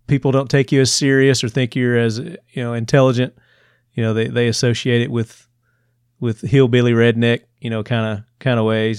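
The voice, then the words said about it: Southern US accent. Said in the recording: “I was losing my Southern accent... it came back, and you can probably hear it now.”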